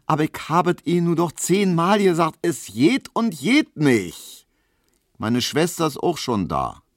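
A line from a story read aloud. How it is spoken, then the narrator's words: Called out. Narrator (German): rief Hedwig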